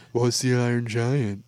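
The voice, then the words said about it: Impression of a co-host. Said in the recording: “That's a really good impression of me... That's how you would have said it.”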